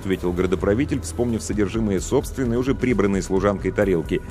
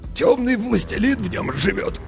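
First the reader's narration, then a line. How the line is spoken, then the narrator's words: Hoarse. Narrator (Russian): хрипло сообщил градоправитель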